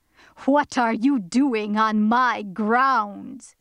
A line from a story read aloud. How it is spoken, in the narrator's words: said the black man, with a hoarse, growling voice